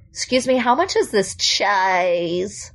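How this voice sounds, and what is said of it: California vocal fry voice. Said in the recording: “That almost sounds like California vocal fry.”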